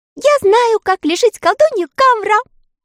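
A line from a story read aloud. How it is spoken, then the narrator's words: Cheerful shout. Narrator (Russian): весело закричала она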